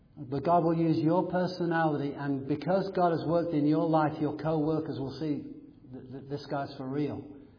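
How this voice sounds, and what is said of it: English accent. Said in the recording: “I've got an English accent in America”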